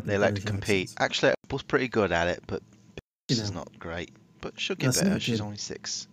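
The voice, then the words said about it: Mixed put-on British accent. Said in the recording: “doing a British accent for some reason ... That's a bit of a mishmash of British accents. I'm sort of jumping all over the board there.”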